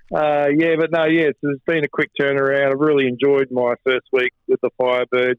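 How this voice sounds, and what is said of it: Hoarse, strained voice. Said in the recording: “still battling the end of a bit of a quite a long sickness run ... You can tell by my voice, it's still lingering. I lost my voice”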